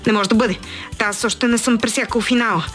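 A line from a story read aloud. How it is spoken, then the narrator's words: Terrified shout. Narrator (Bulgarian): викнал ужасено той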